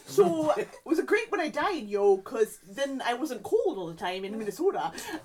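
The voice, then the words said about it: Put-on Minnesotan Fargo accent. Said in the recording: “I don't know if that's a Minnesotan accent. ... It's close enough. ... It's a Fargo accent for sure. ... That sounded like a Canadian with head trauma.”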